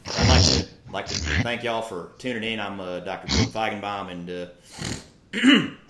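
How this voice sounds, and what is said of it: Impression of Rippetoe. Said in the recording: “a very good Ripito impersonation ... our best Ripto impersonation”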